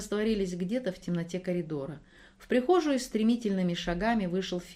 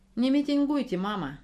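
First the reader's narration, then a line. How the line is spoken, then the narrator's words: Calm young woman asking. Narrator (Russian): спокойно попросила молодая женщина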